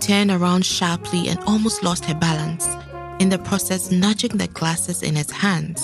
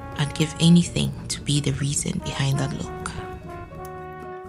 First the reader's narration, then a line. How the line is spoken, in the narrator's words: whispered in her ear